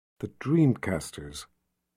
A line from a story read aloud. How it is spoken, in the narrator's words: Nikki whispered to herself